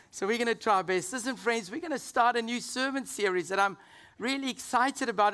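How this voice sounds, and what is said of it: Hoarse, weakened voice. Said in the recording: “as you can hear, after Easter, I lost my voice again ... It just keeps disappearing.”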